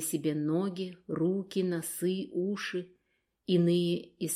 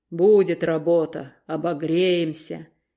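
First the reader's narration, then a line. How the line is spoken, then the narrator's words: Deep voice, coughing. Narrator (Russian): отвечал другой басом, покашливая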